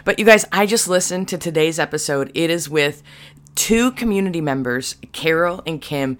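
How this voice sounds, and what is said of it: Raspy voice. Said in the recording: “Forgive the raspy voice. I woke up a little raspy this morning.”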